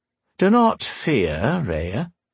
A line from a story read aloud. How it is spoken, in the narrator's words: Bane said, in that hollow tone of his